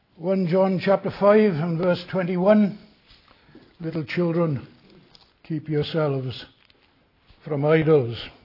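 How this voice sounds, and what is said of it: Speaks with a noticeable accent. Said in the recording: “I'm glad to know you find no difficulty with my accent.”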